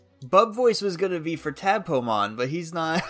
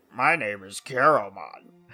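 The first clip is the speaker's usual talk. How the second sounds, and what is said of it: Croaky frog voice with vocal fry. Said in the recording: “do, like, a croaky frog voice... Get that vocal fry... That's exactly a Digimon voice.”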